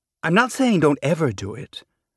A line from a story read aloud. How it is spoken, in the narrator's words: Rohi said